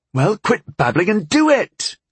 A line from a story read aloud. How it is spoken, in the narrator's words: She snapped, frustrated